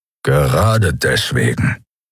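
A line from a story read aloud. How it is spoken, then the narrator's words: Growled. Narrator (German): knurrte Keru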